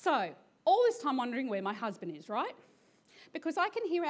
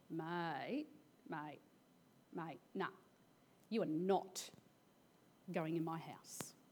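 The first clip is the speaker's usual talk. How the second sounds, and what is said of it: Broad country Australian accent. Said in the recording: “puts on his best country accent”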